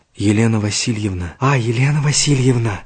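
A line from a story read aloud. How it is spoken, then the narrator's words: Quiet speech. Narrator (Russian): негромко сказал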